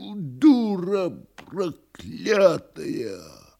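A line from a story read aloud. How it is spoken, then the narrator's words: Furious hoarse wheeze. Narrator (Russian): С глазами, налитыми кровью, Никанор Иванович хрипя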